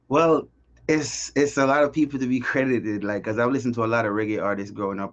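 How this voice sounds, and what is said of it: Jamaican accent. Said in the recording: “In case people can't tell from your accent, you are originally from Jamaica”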